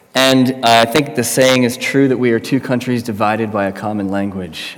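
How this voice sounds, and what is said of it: American accent. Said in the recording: “as you can tell from my accent, I'm not from around these parts. Just recently moved from the United States”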